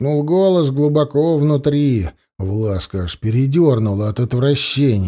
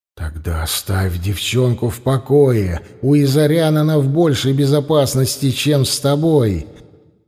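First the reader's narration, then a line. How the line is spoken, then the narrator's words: Whispering inner voice. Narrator (Russian): нашептывал внутренний голос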